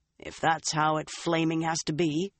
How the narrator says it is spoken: Uno growled

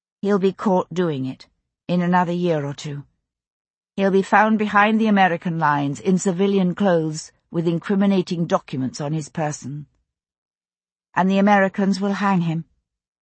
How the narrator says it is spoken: I said, as evenly as I could

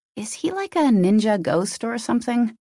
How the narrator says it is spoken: She giggled

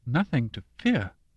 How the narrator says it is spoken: Mama said with a brittle laugh

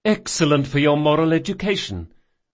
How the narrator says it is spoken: Jean had cried

